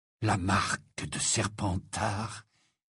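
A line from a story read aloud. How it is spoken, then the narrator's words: Low voice. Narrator (French): dit-il à voix basse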